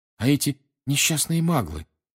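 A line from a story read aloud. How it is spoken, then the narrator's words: Agitated. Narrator (Russian): взволнованно сказала Гермиона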